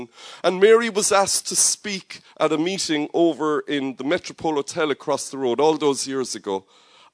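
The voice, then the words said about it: Sing-song Cork Irish accent. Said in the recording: “the way we talk with our sing-song accent here in Cork”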